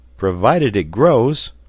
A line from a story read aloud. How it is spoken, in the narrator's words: cried the sailor